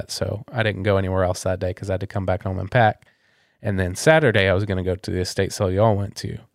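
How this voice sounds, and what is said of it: Sick, sore-throated voice. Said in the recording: “as you can probably tell by my voice, woke up sick again. ... Throat's sore.”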